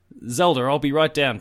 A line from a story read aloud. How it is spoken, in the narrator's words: Peach said excitedly